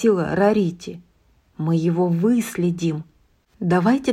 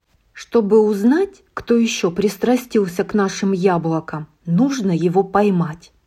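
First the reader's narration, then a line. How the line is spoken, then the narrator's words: Plain. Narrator (Russian): сказала Искорка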